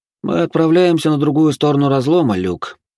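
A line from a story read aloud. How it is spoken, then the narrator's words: Sad smiling voice. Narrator (Russian): грустно улыбнулся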